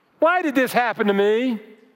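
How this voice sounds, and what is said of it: Whiny complaining voice. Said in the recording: “Whiny accent intended.”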